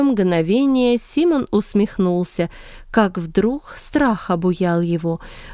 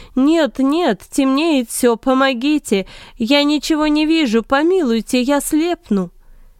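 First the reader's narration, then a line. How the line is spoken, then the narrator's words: Pleading scream. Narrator (Russian): Симон закричал ... умоляя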